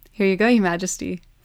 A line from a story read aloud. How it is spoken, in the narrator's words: Fun giggled